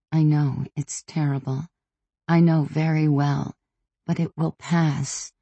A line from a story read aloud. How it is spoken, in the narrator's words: I said to my oldest daughter gently